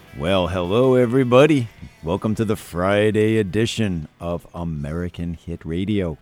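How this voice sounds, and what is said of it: Unusually deep voice. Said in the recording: “Breaking out your new deep voice. ... It's my new deep voice, yes.”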